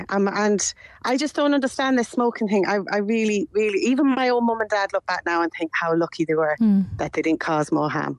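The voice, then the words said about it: English accent from Manchester. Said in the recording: “where her accent is from. Isn't it a lovely accent? ... I'm from Manchester in England. ... But it doesn't sound like a Manchester accent. ... Lovely accent.”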